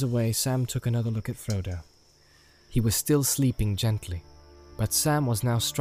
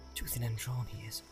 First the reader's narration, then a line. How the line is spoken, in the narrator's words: he muttered